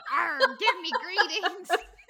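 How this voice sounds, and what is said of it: Pirate voice. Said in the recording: “sounded like a pirate”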